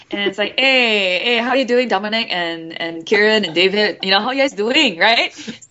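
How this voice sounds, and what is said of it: Singaporean accent. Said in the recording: “can you do some of your Singapore accent? ... So Singapore, I was like, I talk like this, you know?”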